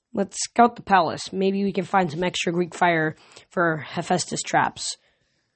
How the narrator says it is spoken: Annabeth mumbled

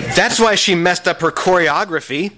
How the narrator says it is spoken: Tabitha Tyke screamed at the judges

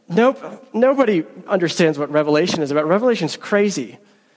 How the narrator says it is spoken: they laughed at him, and they said

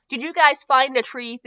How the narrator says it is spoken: Theo asked

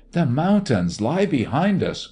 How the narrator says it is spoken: cried a figure dancing past

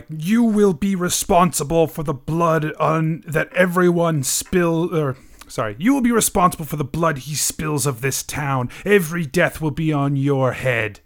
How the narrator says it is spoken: shouts

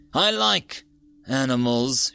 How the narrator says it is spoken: said through gritted teeth

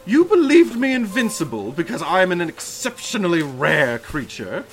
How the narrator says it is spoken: he exclaimed deliriously

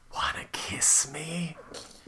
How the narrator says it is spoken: He whispered coyly

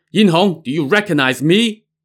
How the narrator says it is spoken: he suddenly heard someone shout

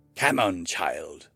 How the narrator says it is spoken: Grohat snapped

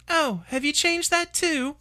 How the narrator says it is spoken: she asked brightly

